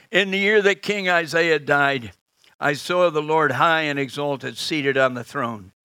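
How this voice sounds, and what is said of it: American accent, fast speech. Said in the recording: “I talk a bit too fast, don't I? Hope you can get my American accent.”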